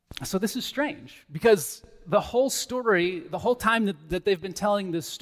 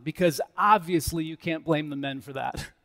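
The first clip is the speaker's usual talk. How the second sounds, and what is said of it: Sarcastic tone. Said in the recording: “That was sarcasm”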